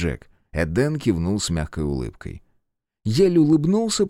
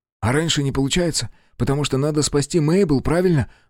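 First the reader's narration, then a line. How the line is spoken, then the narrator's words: Excited question. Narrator (Russian): взволнованно спросил Джек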